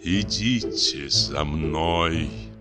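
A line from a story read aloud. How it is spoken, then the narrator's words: Sepulchral, hollow voice. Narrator (Russian): гробовым голосом произнес лысый джентльмен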